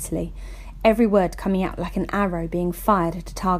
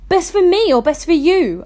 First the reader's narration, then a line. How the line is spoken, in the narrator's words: shouted back